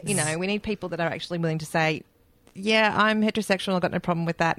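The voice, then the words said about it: New Zealand accent. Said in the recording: “your New Zealand accent ... my New Zealand accent”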